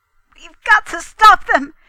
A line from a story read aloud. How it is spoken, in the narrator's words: he cried